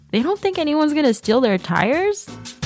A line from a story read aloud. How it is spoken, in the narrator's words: told, laughing